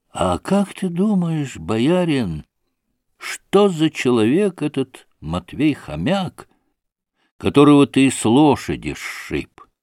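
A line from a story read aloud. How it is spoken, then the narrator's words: Sleepy-voiced question. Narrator (Russian): спросил уже заспанным голосом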